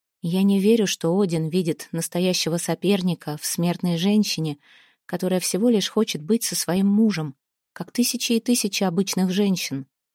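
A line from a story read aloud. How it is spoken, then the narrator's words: Gentle. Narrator (Russian): мягко сказала Снефрит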